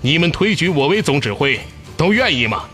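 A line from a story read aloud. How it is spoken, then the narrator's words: Loud, spirited question. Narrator (Chinese): 他抖擞精神，高声问众人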